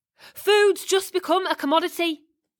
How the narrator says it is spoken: he screamed

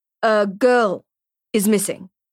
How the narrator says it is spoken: he says slowly, cautiously, as if waiting for Susman to explode

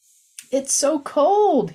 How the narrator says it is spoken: exclaimed, shaking his whole body like an icicle shivering

